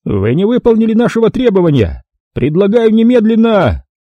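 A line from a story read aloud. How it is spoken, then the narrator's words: Commander shouting. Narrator (Russian): Командир головного танка прокричал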